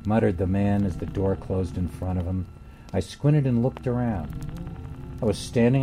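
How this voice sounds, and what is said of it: Usual voice. Nothing is said of it.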